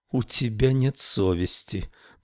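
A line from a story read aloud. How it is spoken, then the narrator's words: Mutter. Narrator (Russian): пробормотал Рауль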